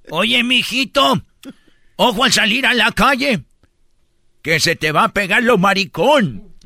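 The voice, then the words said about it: Old lady voice. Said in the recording (Spanish): “voz de viejita”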